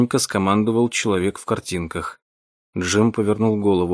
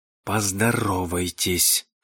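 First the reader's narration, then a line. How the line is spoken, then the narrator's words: Whispered. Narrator (Russian): шепнул кто-то за спиной Вилли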